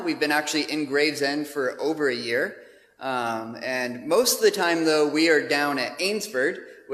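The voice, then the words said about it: American accent. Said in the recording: “as you can tell from my accent, we have not come from some other part of the UK, but we are from the States originally”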